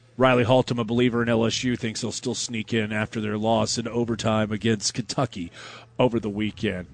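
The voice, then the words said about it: Sarcastic delivery. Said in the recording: “That's me being sarcastic.”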